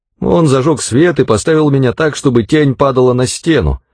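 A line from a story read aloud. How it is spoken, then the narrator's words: Plain. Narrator (Russian): ответил Трескун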